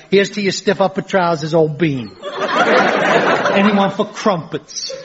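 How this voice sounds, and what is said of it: Exaggerated ridiculous English accent. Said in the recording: “Why is he talking like that? ... Why has he got that ridiculous accent?”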